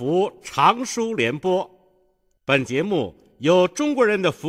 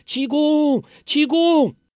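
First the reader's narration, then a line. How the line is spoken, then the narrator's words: Shouting loudly. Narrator (Chinese): 黄蓉跟着大叫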